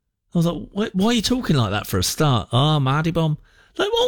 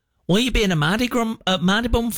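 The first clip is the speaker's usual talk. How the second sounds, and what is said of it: Put-on northern English accent. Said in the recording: “you've got this accent ... Why has that accent changed again?”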